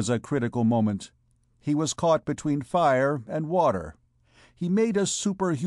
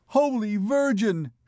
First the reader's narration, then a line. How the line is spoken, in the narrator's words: shrieked the children